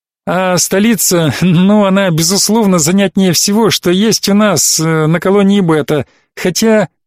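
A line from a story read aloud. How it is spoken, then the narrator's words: Embarrassed laugh. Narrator (Russian): смущенно рассмеялась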